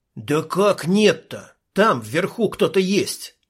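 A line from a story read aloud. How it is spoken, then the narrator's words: Annoyed hiss. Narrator (Russian): прошипел от досады Ник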